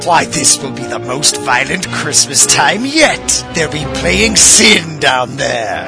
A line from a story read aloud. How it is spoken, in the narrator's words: cackled with rage